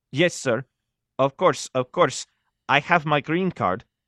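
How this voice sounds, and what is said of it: Thick Mexican accent. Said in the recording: “spoke in a thick Mexican accent”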